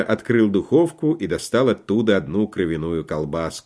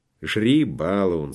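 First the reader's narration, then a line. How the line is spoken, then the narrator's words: Affectionate. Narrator (Russian): сказал он ласково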